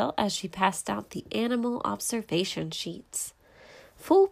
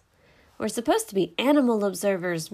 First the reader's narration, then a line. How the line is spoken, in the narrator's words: Madison called out